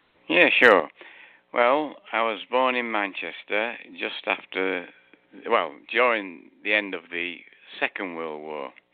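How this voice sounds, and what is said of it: Noticeable accent. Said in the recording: “People could probably hear that there's an accent there.”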